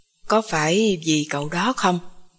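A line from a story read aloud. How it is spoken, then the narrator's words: Quiet voice. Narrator (Vietnamese): Vũ Hảo nhỏ giọng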